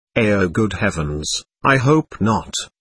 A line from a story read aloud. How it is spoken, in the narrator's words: answered the man